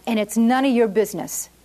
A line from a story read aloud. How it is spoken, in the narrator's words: the laborer bellowed back